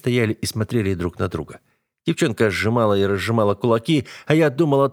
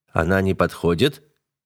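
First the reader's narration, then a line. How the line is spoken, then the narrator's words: Cold question. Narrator (Russian): холодно спросил я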